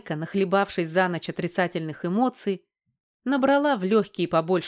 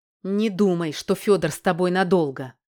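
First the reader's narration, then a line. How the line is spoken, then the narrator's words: Angry. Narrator (Russian): Зло сказала Оксана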